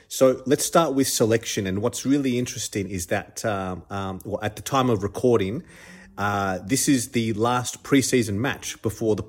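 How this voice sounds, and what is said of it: Congested, stuffed-up voice. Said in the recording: “If my voice is a little bit off, I apologize in advance. Just fighting a little cold or flu ... So if I'm a bit stuffed up, that's why.”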